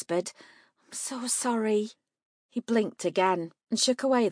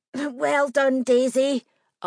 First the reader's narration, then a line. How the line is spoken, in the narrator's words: Otis wheezed